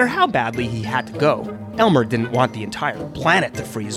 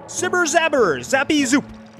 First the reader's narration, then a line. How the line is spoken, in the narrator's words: an alien pilot shouted